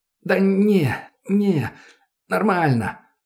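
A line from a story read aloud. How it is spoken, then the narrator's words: Hoarse rasp. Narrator (Russian): прохрипел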